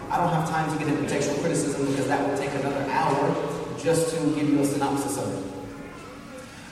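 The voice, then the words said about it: Southern English accent, speaks quickly. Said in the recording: “forgive me for speaking a little bit quickly. It's just my southern English accent. We just roll along with things ... I don't have a very good English accent to begin with, even from the south”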